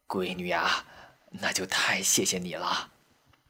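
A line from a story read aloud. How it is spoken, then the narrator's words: Relieved, embarrassed murmur. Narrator (Chinese): 老太太这才似乎放下心来，挺不好意思地，嘴里喃喃着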